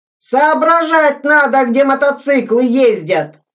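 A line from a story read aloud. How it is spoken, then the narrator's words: Indignant yell. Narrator (Russian): Заорал, будто на раздатке его на пайку хлеба обсчитали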